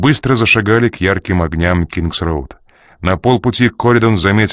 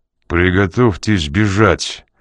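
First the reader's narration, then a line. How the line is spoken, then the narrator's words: Muttered through teeth. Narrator (Russian): процедил он уголком рта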